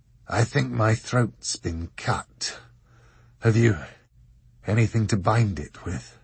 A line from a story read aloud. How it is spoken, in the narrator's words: he said, in a hoarse voice that was little more than a grinding whisper